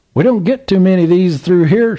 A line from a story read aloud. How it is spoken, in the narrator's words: laughed